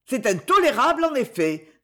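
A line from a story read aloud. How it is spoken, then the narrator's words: Furious, unrestrained outburst. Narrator (French): s'écria la dame furieuse, abandonnant toute retenue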